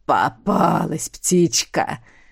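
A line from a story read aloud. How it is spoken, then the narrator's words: Sudden pleased hoarse voice. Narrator (Russian): раздался внезапно довольный хриплый голос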